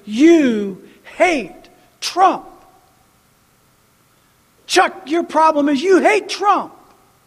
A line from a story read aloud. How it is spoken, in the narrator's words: Republicans and Christians yell at me and say